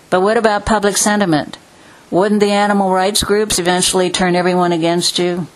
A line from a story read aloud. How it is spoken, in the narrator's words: sighed heavily